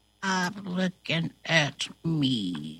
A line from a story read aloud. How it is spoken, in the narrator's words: mutters